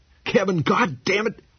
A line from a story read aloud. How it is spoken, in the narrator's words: he bawled